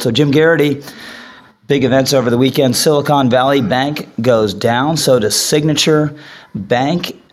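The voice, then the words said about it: Sick-sounding voice. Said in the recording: “forgive my voice. I will eventually be over this cold.”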